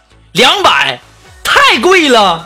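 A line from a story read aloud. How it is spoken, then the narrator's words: Loud shout. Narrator (Chinese): 我在那高声的喊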